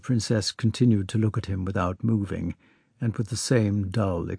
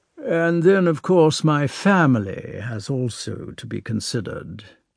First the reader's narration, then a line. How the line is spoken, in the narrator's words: Prince Vasily went on, testily